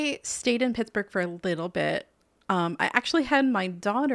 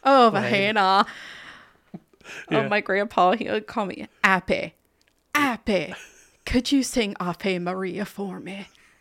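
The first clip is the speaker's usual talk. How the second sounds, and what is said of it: Put-on Dutchy accent, well done. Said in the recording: “a 30-second Dutchy accent? ... That's really good. Wow. Yeah, a Dutchy accent.”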